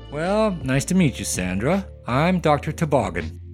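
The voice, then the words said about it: Performed character voice. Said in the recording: “He's done quite a few voices for us on this podcast, like this one.”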